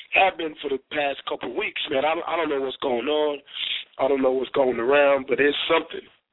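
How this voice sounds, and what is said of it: Sick, under-the-weather voice. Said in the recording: “I'm a little bit under the weather, and I'm sure you guys can tell in my voice.”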